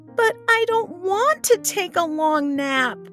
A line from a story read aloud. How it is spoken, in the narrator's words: Barnaby whined